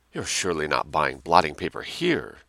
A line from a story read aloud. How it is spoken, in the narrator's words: exclaimed in an agitated whisper